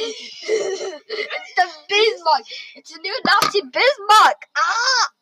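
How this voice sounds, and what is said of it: Attempted German accent sounding Australian. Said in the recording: “my best German accents ... That's not a German accent. ... That's more like an Australian. You know, Australian, buddy.”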